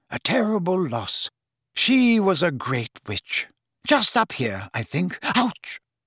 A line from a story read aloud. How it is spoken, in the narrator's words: said Dumbledore quietly